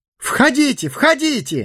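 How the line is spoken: Exclamation. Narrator (Russian): воскликнул Бильбо

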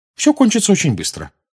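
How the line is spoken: Encouraging tone. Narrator (Russian): подбадривающим тоном сказал мистер Уизли

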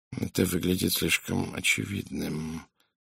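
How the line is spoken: Muttering to himself. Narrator (Russian): пробормотал Пуаро, словно обсуждая что-то сам с собой

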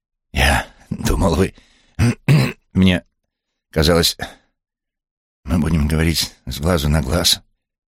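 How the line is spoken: Hoarse rasp. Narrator (Russian): прохрипел

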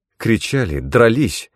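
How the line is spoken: Agitated woman explaining. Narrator (Russian): взволнованно пояснила какая-то женщина

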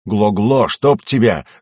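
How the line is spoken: Angry growl. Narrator (Russian): зарычал я на ползущего впереди гоблина

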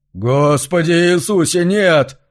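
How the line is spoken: Forced out. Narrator (Russian): выдавил он

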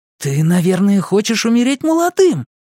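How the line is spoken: Admiring exclamation. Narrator (Russian): восхищенно воскликнул Эдди

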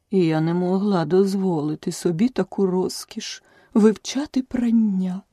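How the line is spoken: Sighing. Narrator (Ukrainian): зітхнула черепаха

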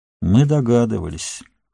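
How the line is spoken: Sad. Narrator (Russian): грустно сказал Ингольд

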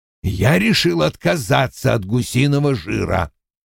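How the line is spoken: Growl. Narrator (Russian): прорычал он

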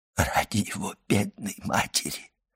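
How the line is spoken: Whisper. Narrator (Russian): прошептал приезжий из Лукки

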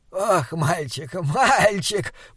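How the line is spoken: Hoarse wheeze. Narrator (Russian): прохрипел он

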